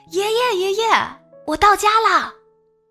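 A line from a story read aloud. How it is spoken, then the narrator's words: Excited shout. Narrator (Chinese): 我兴奋地喊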